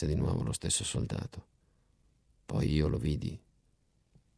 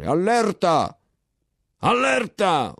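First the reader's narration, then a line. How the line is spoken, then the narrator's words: General shouting. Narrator (Italian): urlava il generale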